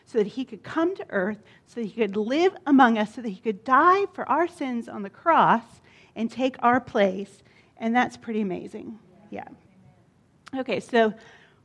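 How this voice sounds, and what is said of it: Out of breath, excited speech. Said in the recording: “I'm going to take a deep breath. ... I got out of breath there. I was excited”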